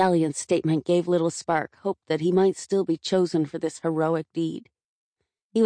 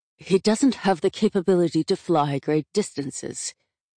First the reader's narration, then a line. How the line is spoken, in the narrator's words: growled Selinka